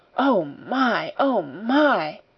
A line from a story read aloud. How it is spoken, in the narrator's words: say hoarsely, in wild delight